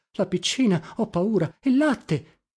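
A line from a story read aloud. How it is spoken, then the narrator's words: Moan. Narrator (Italian): gemette Pomino levandosi in fretta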